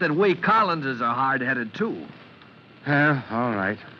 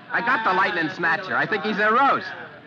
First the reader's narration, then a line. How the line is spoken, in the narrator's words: yells back